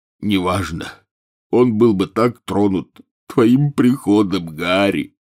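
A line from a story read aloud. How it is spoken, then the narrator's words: Loud sobbing. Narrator (Russian): Хагрид громко зарыдал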